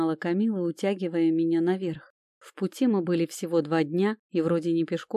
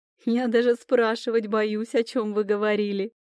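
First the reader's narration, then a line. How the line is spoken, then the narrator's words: Laughing. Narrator (Russian): Начал смеяться Люк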